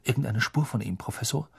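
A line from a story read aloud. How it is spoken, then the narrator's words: Whisper. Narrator (German): flüsterte Percy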